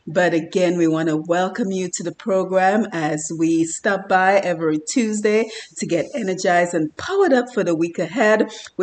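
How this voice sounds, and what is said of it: Slightly congested voice from cold. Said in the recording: “I have a little bit of a cold, so I hope it's not affecting the quality of my voice too badly”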